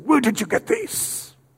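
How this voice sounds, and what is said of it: Put-on foreign accent. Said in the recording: “That's my little accent there.”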